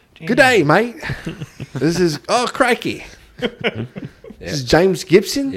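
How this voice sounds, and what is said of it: Poor put-on Australian accent. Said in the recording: “my shitty Australian accent”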